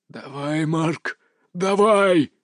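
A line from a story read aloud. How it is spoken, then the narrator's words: Growled. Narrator (Russian): зарычал он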